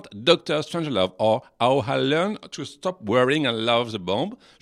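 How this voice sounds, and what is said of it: English spoken with French accent. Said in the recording (French): “In English with My Accent”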